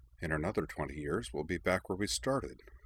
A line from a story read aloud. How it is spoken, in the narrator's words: Cora muttered, almost inaudibly